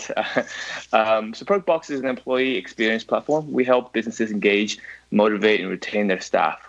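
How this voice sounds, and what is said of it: American accent. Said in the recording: “I'm originally American, actually, so that hints the accent.”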